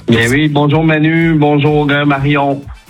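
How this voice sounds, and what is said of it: Light Québécois French accent. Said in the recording (French): “Il y a un petit accent. ... Un petit, léger ... C'est un accent de quoi? ... Canada. Ah oui, on est au cœur du Québec ... T'es québécois ... là on l'entend là”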